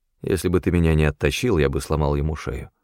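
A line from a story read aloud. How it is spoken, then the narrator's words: Gloomy reply. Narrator (Russian): мрачно ответил я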